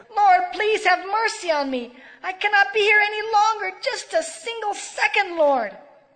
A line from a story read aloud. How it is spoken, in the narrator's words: she shouted to the Lord